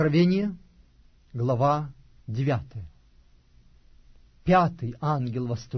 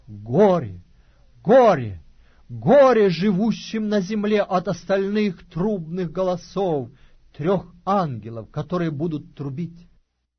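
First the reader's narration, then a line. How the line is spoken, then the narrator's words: Loud angelic proclamation. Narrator (Russian): одного ангела, летящего посреди неба и говорящего громким голосом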